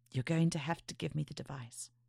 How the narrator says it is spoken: she said softly

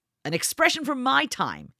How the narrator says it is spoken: snapped

